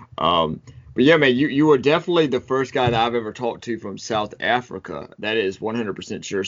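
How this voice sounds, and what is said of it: American accent. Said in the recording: “you have a pretty cool accent ... I love American accents.”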